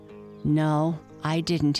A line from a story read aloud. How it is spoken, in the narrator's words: answered